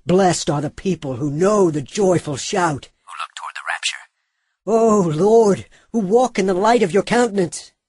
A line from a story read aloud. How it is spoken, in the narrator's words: the man dressed in linen cried like a ram's horn, saying